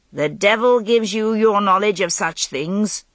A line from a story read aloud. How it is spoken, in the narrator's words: Patricius said sternly